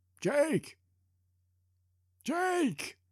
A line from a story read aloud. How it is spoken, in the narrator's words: Anderson does shout